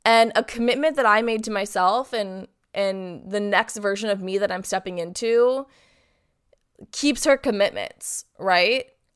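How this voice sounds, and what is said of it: Sick, sore-throated voice. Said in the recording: “I am sick. I don't know if you can hear it in my voice, but I have been fighting a cold the past week. My throat is killing me”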